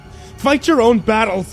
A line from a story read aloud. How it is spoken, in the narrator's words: I shouted